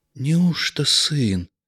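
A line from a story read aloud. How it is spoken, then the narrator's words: Quiet old man's question. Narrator (Russian): тихо спросил дед Нечай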